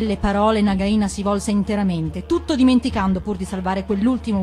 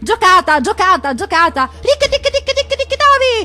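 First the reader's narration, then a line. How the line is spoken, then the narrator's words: Shrieked triumphantly. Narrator (Italian): strillò trionfante Ricky Ticchi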